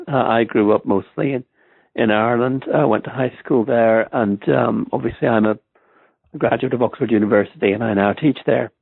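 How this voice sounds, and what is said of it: Non-American accent. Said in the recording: “I was born in Stamford, Connecticut, although you'll never believe that from my accent.”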